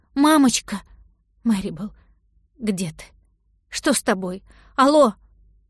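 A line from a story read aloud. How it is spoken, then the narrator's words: Anxious pausing questions. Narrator (Russian): После каждого вопроса она останавливалась и ждала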